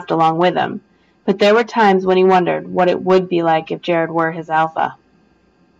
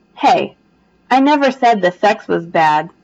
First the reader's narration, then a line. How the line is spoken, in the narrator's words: Jared chuckled